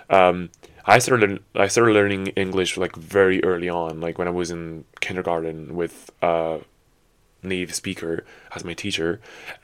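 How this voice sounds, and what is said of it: Mixed British, Irish and American accent. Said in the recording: “my accent is not really British, it's not really like Irish either, but it's just a mixture of like, I don't know, what I picked up on YouTube and the US ... a mishmash of everything”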